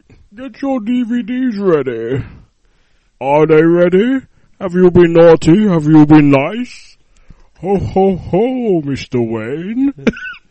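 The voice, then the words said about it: Bane movie villain voice impression. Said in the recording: “really stupid accent ... Introduce it as Bane”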